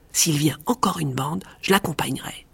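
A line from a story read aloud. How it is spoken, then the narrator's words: Plain. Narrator (French): dit-il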